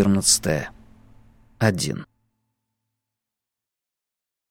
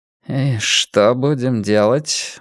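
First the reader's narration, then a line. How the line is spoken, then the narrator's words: Gloomy question. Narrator (Russian): мрачно спросил Блор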